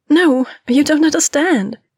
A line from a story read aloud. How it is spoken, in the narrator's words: she exclaimed